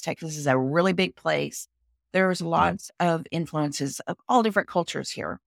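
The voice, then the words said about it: Southern Texan accent. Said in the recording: “I am a Texan. You can tell from my accent. I'm a Southern girl.”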